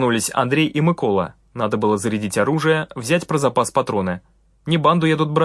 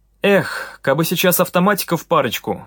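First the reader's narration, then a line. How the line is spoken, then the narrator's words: Sigh. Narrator (Russian): вздохнул Сергей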